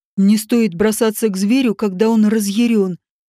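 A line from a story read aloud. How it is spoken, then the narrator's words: Rough growling voice from above. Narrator (Russian): грубый рычащий голос над своей головой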